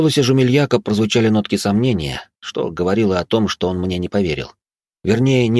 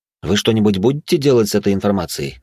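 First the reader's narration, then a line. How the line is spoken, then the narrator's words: Plain. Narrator (Russian): спросил я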